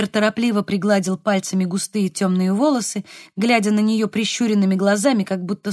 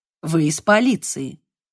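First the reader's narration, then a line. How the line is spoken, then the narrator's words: Hostile tone. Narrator (Russian): сказал он враждебным тоном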